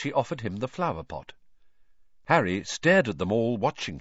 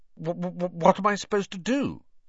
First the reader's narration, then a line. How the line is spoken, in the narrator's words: he stammered